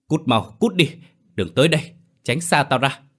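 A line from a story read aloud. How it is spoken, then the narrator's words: Shouting. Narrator (Vietnamese): Hùng hét lên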